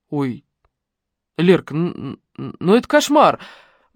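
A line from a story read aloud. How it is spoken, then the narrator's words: Offended mumble. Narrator (Russian): пробормотал он обиженно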